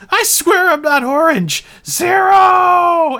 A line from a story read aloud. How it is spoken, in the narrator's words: a traumatized Jeremiah screams